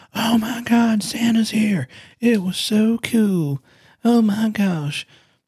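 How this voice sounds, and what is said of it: Put-on Southern accent. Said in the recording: “I didn't have a Southern accent, so I apologize. I don't know why I did that.”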